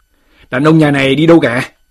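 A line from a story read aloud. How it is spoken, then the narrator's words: Loud harsh demand. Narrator (Vietnamese): Một số tên sai dịch, lớn tiếng quát hỏi bà lão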